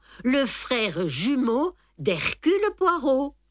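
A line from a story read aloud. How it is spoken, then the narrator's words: Slow speech. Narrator (French): dis-je lentement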